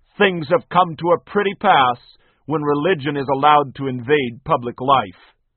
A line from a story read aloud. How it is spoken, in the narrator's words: Lord Melbourne of Britain was upset at a movement led by evangelical Christians, and he thundered